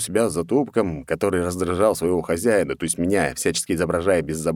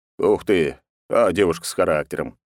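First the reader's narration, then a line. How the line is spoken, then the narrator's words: Amused snort. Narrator (Russian): Я хмыкнул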